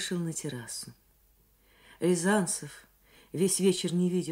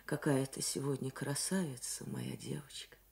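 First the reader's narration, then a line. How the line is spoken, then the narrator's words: Warm smiling speech. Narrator (Russian): сказал он ей, ласково улыбаясь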